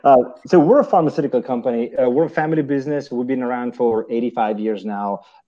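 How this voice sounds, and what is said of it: Italian accent. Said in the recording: “forgive my accent ... I love the accent ... I'm obviously Italian”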